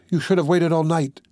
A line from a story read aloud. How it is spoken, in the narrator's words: she said angrily